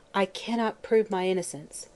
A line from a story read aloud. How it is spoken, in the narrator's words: said, brokenly